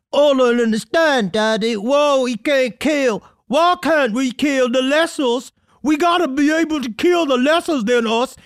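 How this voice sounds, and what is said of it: Inbred South Carolina son character voice. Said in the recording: “like this weird, like inbred South Carolina son ... just your impression of Holden McNeely”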